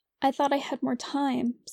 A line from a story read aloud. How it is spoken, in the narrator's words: said Lizzie